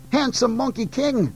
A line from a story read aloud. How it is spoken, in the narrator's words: called out